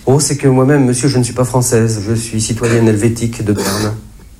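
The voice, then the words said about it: Fairly strong Germanic accent. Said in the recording (French): “Elle avait en effet un assez fort accent germanique.”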